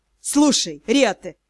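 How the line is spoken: Irritated master. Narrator (Russian): раздраженно начал магистр

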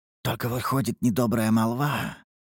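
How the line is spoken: Whisper. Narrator (Russian): шепотом заметил Чинсвуд

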